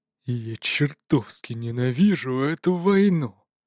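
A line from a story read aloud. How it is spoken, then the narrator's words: Growled. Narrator (Russian): прорычал Файхорн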